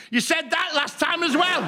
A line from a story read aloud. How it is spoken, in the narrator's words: he shouted